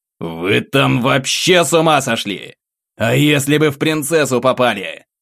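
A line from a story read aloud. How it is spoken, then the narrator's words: Barked. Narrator (Russian): рявкнул я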